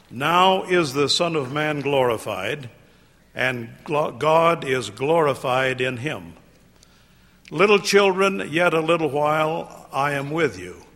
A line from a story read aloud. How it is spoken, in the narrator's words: he said